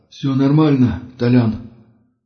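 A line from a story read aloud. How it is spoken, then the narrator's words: Strained, forced out. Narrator (Russian): с трудом выдавил из себя Гриша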